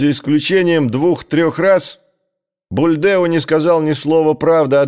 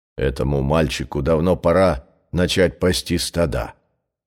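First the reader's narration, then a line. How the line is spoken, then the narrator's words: Grumbling village elder. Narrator (Russian): проворчал староста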